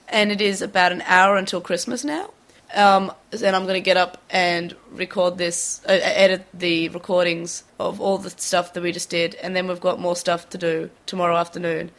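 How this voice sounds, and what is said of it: Sick, hoarse voice going out. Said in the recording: “super sick ... I could barely record it once ... I'm losing my voice now”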